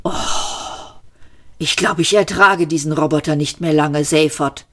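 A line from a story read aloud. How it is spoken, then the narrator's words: Groaning. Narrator (German): stöhnte Trillian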